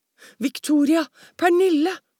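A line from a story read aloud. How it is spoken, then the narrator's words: Exclaimed. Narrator (Norwegian): utbrøt hun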